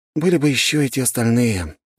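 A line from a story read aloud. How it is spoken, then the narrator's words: Sighing. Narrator (Russian): вздохнул я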